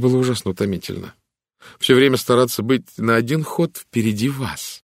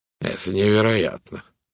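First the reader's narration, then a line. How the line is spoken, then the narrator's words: Muttered. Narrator (Russian): пробормотал он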